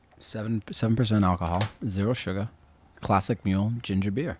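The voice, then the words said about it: Boston accent while reading aloud. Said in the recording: “when you're reading, you talk in your Boston accent.”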